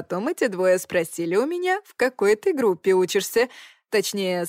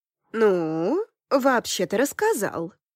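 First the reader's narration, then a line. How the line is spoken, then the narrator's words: Calm. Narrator (Russian): спокойно сообщила мне подруга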